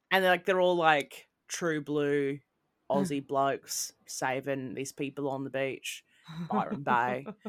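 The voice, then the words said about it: Australian accent. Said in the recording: “how you hear your accent when you leave the place you live ... I love your accent”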